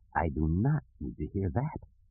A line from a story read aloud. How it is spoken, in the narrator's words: Lando also whispered